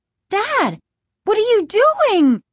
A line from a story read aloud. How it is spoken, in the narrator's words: Margaret cried